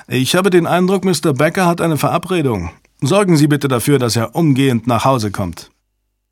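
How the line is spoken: Called out. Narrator (German): rief Fontaine

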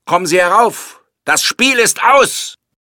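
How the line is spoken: Shouted. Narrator (German): er schrie

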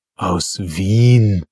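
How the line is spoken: Groan. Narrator (German): stöhnte der Friedrich

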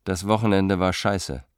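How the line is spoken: Plain. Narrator (German): sagte Bohumil

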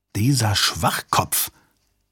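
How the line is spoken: Hiss. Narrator (German): zischte Mitch

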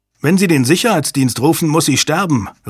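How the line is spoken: Called out. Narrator (German): rief Hale

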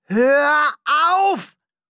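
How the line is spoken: Roared. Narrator (German): brüllte er

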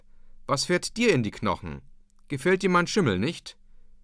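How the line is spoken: Calling out. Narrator (German): rief der Deichgraf

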